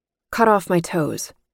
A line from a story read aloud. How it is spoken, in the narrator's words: I said flatly